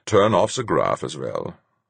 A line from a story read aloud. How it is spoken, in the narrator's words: Fuchs said calmly